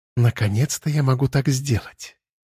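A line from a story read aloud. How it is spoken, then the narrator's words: Cooing. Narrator (Russian): Проворковала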